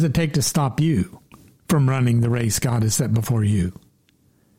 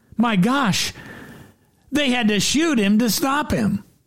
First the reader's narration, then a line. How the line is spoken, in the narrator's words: A lady attending her first professional football game cried out